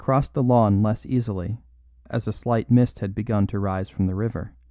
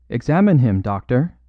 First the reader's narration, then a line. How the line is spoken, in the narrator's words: cried Valentin rather sharply